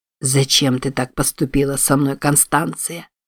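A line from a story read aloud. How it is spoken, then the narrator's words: Quiet, into darkness. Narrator (Russian): тихо произнес он в темноту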